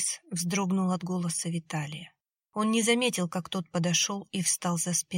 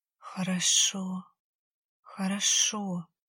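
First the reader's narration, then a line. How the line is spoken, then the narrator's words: Barely audible whisper. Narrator (Russian): еле слышно шептала Анфиса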